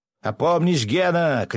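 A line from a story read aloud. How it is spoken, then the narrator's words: Shouted. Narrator (Russian): крикнул князь Лазарев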